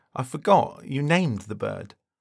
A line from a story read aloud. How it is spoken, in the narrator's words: Thomas lets out a chuckle and says